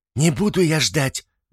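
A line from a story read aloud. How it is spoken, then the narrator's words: Wife shouting. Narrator (Russian): закричала жена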